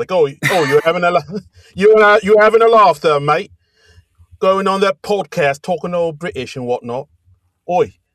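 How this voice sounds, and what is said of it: Bad put-on British accent. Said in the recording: “doing the bad British accent”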